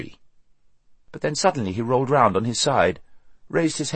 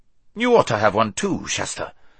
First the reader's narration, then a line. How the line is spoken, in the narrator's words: he snorted